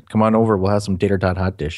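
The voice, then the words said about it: Put-on Minnesota accent. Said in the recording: “I can do the accent with the best of them. ... I have relatives who give Fargo a run for their money with the accents.”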